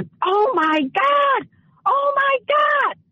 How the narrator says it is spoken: start screaming

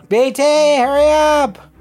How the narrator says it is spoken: You yell out

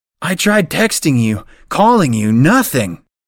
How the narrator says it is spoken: yells

